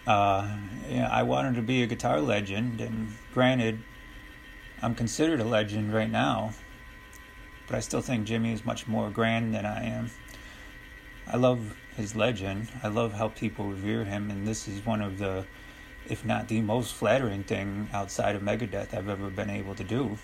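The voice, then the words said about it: Soft-spoken imitation of another person. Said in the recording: “that's my impression of Dave Mustaine. He kind of talks soft like that”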